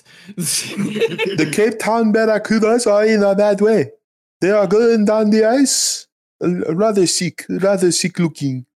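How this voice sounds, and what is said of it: Attempted South African accent. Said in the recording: “I can't speak in South African accent. ... You did a semi-coherent job. ... It just turned Australian. And then Bernie Sanders.”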